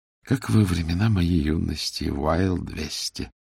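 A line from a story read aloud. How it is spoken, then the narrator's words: Melancholy sigh. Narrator (Russian): Меланхолически вздохнула Мари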